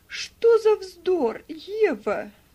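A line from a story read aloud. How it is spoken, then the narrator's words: Exclaimed. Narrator (Russian): воскликнула Мари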